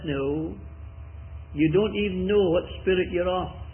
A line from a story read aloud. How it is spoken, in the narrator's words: The Lord very gently, firmly, graciously says